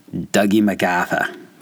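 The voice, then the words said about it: Put-on Boston accent. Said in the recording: “with a Boston accent?”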